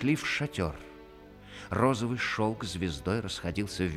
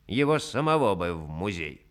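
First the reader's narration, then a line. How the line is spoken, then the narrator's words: Grumbling. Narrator (Russian): проворчал голый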